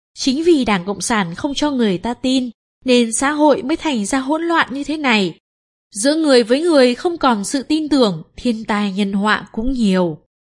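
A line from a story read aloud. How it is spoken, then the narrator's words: Smiling, calm. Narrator (Vietnamese): Tôi vẫn mỉm cười nhìn anh ta và nói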